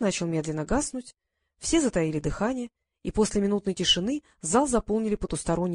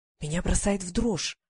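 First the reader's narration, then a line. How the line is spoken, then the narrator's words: Whisper. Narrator (Russian): прошептала Полли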